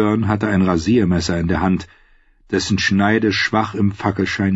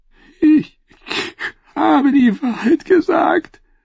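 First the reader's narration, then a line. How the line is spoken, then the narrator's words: Singer sobbing. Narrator (German): schluchzte der Sänger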